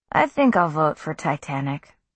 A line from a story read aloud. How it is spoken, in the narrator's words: he said blandly